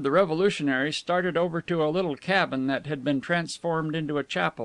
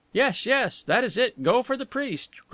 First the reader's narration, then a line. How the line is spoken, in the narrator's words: cried Rouletabille